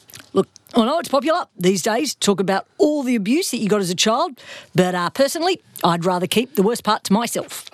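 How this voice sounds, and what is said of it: Impression of Chopper's accent. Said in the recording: “I think you might have been listening to a little bit too much Chopper audio, but let's just go with that accent ... I nailed it ... I feel like I'm channeling Chopper”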